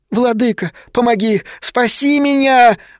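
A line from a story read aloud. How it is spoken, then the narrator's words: Sudden childlike scream. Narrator (Russian): вдруг совершенно детским голоском закричал Вулкан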